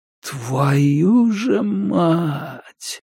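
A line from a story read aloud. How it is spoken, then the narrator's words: Whisper. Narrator (Russian): прошептал он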